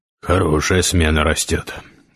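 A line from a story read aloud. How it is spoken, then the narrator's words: Tired. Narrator (Russian): устало произнес Гессер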